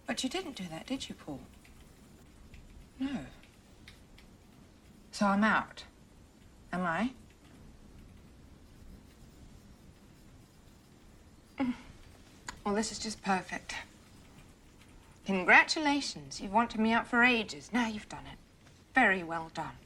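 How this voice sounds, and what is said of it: Put-on English accent. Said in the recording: “Gwyneth Paltrow's English accent.”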